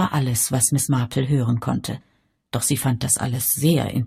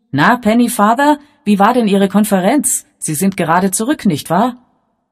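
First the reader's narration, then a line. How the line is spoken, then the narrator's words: Cheerful call. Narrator (German): rief ihm vergnügt zu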